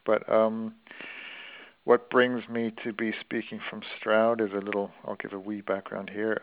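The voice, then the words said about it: Canadian accent. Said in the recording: “this is not a Gloucestershire accent coming down the wires. It's Canadian.”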